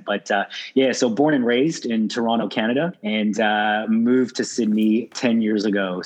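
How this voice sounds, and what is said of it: Canadian accent. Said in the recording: “you could probably tell that I'm not not originally from Australia, from the accent”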